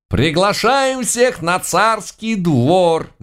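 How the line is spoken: Loud shout. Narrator (Russian): громко прокричал Горох

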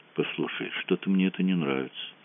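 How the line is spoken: Quiet. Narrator (Russian): тихо сказал Мазур

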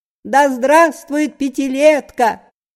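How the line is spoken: Thin, funny girl's shout. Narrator (Russian): пионерка гремящего ключа своими слабыми ручонками тонким смешным голосом закричала

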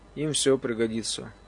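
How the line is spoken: Weary. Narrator (Russian): устало заметил я

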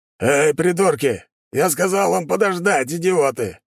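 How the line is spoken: Roaring angrily. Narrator (Russian): взревел он

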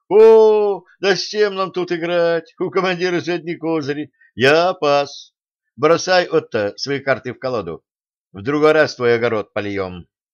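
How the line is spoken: Loud shout. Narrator (Russian): громко крикнул

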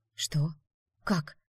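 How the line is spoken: Inner whisper. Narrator (Russian): мысленно прошептала я

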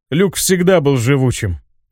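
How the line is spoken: Snort. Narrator (Russian): хмыкнул он

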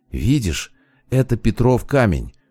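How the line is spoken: Whisper. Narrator (Russian): почему-то шепотом сказала Рада

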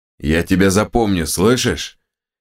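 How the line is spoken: Menacing growl. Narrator (Russian): прорычал он одному особо наглому

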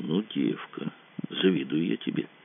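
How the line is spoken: Quiet. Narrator (Russian): Кацуба тихонько сказал

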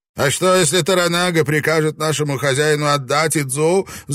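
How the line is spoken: Shouting. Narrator (Russian): закричал Игураси

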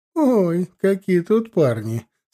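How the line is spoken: Laughing reply. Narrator (Russian): смеясь тут же ответила Никифоровна

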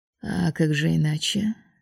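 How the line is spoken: Calm. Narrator (Russian): спокойно ответил тот

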